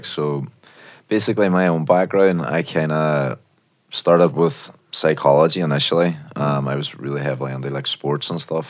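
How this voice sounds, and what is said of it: Northern Irish accent. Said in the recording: “everyone else can tell by the accent, it didn't start in London, did it? ... Derry, actually. I'm from Northern Ireland originally.”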